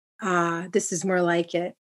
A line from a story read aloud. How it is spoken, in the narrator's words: Yanya sighed gratefully